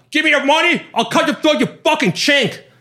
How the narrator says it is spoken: Followed by screaming

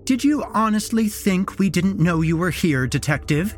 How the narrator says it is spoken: She laughed

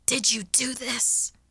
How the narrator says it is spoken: I snapped hoarsely

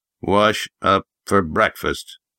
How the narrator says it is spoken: Jeb grunted

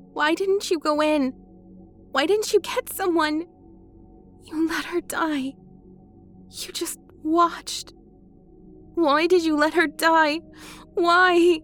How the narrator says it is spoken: asked, choking, becoming frantic

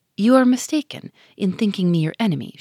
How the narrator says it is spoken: said

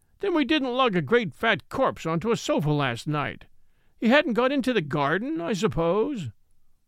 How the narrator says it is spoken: he cried

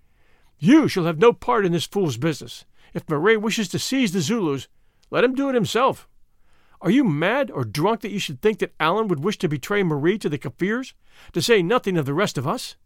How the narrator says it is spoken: the Vrouw Prinsloo caught her husband by the arm, exclaiming

